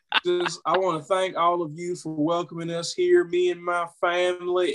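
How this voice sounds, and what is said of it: Put-on Southern US accent. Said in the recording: “has found a new Southern accent ... sounded like he'd been down the bayou”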